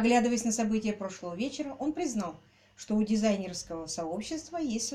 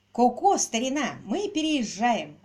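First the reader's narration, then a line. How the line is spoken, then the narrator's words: Joyful announcement. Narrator (Russian): радостно объявил Квиллер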